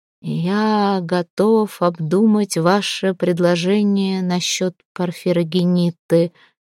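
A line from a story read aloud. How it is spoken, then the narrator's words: Nearly through gritted teeth. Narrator (Russian): едва ли не процедил сквозь зубы Константин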